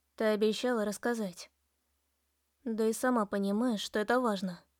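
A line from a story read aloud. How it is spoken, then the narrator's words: Soft. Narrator (Russian): мягко ответила я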